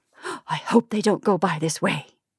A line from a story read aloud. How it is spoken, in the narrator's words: whispered Mrs